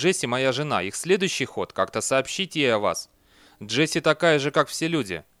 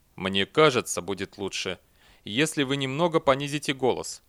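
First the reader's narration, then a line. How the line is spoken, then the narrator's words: Calm. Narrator (Russian): спокойно произнес Эрденил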